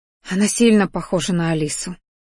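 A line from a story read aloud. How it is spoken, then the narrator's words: Quiet mother's voice. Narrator (Russian): тихо произнесла мама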